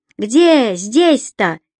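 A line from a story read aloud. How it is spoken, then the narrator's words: Woman shouting. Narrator (Russian): выкрикнул женский голос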